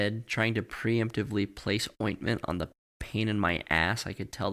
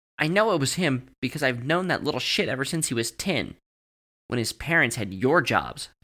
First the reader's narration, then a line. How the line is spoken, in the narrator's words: Tony spat at me